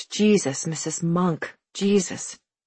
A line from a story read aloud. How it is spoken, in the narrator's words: He whispered